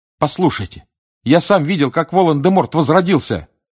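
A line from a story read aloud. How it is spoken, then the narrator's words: Shouted. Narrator (Russian): крикнул Гарри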